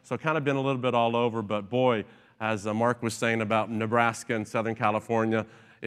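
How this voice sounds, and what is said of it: Southern Tennessee twang. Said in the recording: “a twang in my voice, that's where I'm originally from ... Tennessee”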